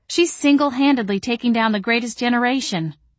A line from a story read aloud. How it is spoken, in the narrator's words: I moaned